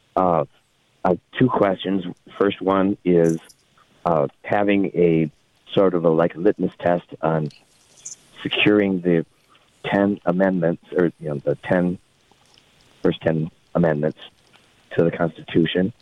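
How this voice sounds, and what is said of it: Impaired voice. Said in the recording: “my voice is impaired today.”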